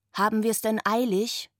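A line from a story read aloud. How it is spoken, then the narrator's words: Plain. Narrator (German): fragte Finn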